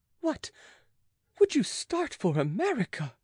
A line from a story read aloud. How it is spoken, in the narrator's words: exclaimed the maid, almost frightened at his courage